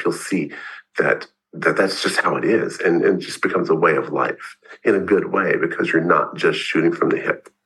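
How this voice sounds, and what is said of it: Deep, congested voice with a cold. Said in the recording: “you in a stronger voice, although you are struggling with the cold today... you have extra bass... you got extra bass”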